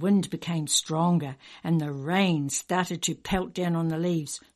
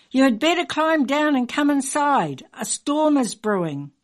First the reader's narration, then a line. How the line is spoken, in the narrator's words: Dad called out to me